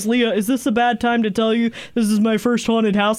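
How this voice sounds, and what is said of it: Impression of a friend's voice. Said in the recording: “That's a very good impression of me”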